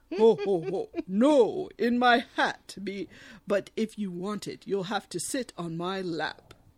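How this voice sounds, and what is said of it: Deep jolly Santa Claus voice. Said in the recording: “I need to be doing a better Santa voice. ... I'm channeling Santa.”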